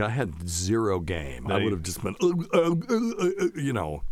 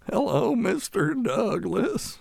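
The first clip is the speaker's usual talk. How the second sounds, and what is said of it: Imitates Mr. Haney character voice. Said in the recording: “It's from Green Acres... it's Mr. Haney”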